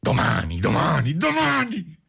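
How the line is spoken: Madman's furious, desperate yell. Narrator (Italian): urlò il pazzo, entrando in una subita furia tutta mescolata di stizza e di disperazione

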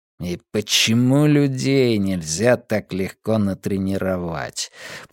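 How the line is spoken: Muttered. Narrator (Russian): пробурчал Каз

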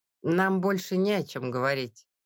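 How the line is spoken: Even tone. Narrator (Russian): ровным тоном сказала

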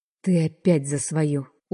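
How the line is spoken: Tired. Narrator (Russian): устало говорю я

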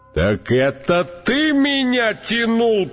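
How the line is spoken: Roared by elephant. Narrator (Russian): проревел слон

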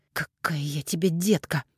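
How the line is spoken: Through gritted teeth. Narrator (Russian): процедила Алиса

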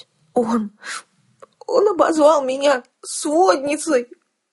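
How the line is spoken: Sorrowful muffled sob. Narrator (Russian): горестно всхлипнула Келла в мое и без того насквозь промокшее плечо

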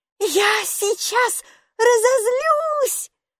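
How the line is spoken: Desperate shout. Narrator (Russian): отчаянно крикнула Майки

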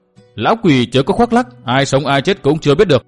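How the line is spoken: Angry shout. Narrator (Vietnamese): Đường Phụng Kỳ tức giận quát

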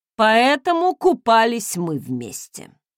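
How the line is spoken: Snort. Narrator (Russian): хмыкнул Фостон

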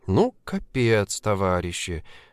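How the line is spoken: Mumbled. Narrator (Russian): Пробормотала Женечка

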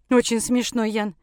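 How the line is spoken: Snorting. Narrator (Russian): фыркнула одна из них

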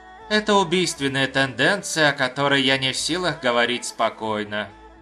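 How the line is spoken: Sighing. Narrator (Russian): вздохнул Янь

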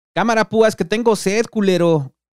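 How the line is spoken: Shout. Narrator (Spanish): escucharon gritar al negro

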